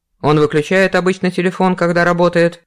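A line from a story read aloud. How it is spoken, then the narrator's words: Stern question. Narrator (Russian): строго спросил Виктор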